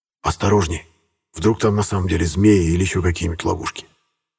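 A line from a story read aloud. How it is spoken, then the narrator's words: Quiet warning. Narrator (Russian): тихо предупредил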